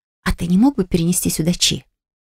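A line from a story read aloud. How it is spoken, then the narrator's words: Quiet question. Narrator (Russian): спросил я тихо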